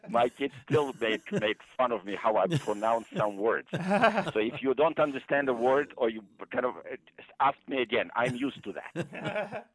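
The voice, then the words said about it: Heavy non-native accent. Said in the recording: “I have a very heavy accent. I will probably not get rid of it until the rest of my life... Not so heavy”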